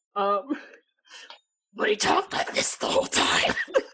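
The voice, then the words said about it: Bad Batman-style impression voice. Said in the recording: “worst Batman impersonation.”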